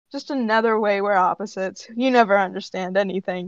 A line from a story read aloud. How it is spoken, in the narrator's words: Shatten sighs and just says